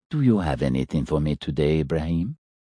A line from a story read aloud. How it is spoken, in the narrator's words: said in his soft, quiet voice